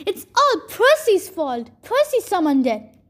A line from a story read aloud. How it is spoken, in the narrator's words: Clarice yelled